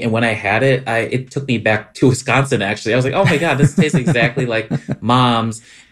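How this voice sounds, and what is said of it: Wisconsin accent. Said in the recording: “your like Scani accent came out”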